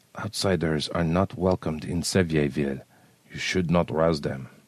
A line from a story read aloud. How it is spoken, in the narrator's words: said softly